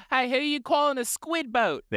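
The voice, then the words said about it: Put-on New Zealand accent. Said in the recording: “The aliens adopted New Zealand accent”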